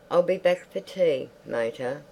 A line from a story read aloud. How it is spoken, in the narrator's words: said Reggie weakly